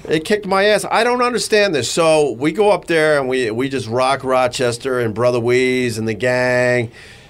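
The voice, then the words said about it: Deep sick-sounding radio voice. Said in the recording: “You sound good. You got a cool radio voice.”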